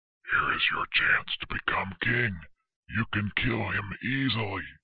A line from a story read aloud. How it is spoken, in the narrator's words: David's men whispered to him